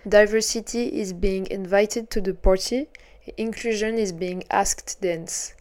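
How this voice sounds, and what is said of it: Put-on English accent. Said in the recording (French): “j'ai pris mon meilleur accent”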